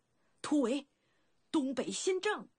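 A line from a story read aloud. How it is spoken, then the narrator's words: Alarmed shout. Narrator (Chinese): 孟尝君大惊，立时大喊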